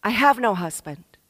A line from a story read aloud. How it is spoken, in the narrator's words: she says